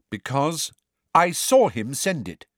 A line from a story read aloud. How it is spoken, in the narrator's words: said Cho angrily